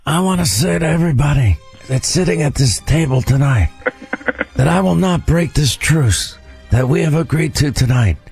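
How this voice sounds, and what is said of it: Imitation of a famous actor's voice. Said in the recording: “my Brando impersonation ... I'll do it for you.”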